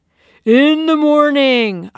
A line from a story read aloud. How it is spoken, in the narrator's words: roared